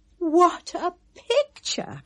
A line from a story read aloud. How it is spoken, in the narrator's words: cried the ladies